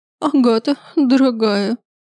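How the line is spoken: Tragic sob. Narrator (Russian): Она трагично всхлипнула

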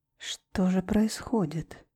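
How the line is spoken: Pensive muttering. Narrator (Russian): Задумчиво бормотал капитан Дольмар

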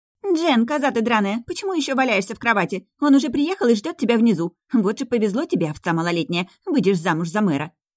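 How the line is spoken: Shrill unfamiliar female voice. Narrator (Russian): Раздался визгливый женский и незнакомый голос

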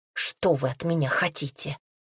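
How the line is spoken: Hysterical hiss. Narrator (Russian): прошипела я истерично

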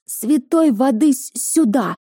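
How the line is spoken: Nervous shout, priest. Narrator (Russian): тут же выкрикнул священник, нервно

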